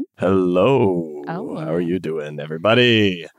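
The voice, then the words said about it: Very deep, smoky, hoarse voice. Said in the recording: “I've got laryngitis. Very sexy. ... I'm about 4 octaves down right now. ... the sick voice ... like really smoky, hot kind of tone”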